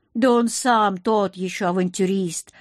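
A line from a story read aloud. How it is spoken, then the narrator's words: Chuckling. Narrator (Russian): хохотнул Акир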